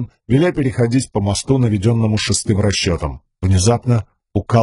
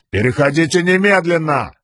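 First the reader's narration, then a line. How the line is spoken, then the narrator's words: Yelling. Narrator (Russian): завопил Светлоглазый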